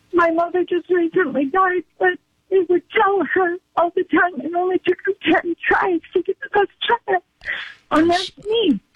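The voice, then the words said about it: Tearful, crying while speaking. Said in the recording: “I didn't mean to get emotional ... she broke up in tears over her mom”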